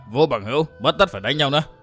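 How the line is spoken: Smiling, conciliatory male voice. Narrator (Vietnamese): Mỉm cười làm lành, hắn nói

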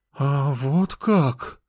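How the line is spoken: Relieved exhale. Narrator (Russian): облегченно выдохнула она

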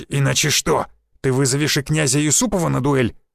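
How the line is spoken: Growl. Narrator (Russian): зарычал Никитич

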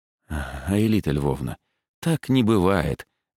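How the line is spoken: Gentle. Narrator (Russian): мягко сказал я

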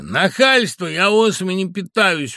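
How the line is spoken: Children yelling. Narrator (Russian): вопили ребята

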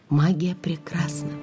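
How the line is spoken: Whisper. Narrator (Russian): прошептала я

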